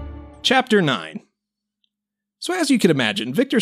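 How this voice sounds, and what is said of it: Usual voice. Nothing is said of it.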